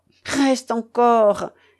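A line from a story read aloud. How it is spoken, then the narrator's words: Pleading. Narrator (French): dit Ulrika d'un ton de prière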